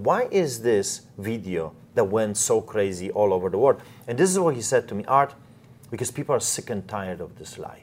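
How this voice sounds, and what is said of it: Polish accent. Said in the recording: “because of your accent, because you're Polish”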